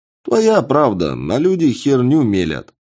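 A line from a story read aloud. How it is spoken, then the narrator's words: Cheerful man's reply. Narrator (Russian): весело ответил мужчина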